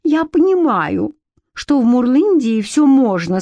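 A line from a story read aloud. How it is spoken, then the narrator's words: Sobbing. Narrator (Russian): сказала она, всхлипывая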